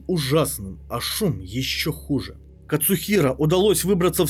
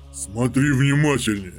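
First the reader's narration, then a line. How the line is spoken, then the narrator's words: Giant's growl. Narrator (Russian): прорычал исполин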